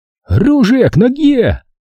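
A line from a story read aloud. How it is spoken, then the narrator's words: Sudden exclamation in German. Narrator (Russian): неожиданно воскликнул он по-немецки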